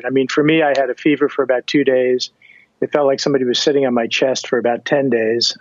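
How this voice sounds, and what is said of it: Slightly breathy voice. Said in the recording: “my voice is a little, breathy these days”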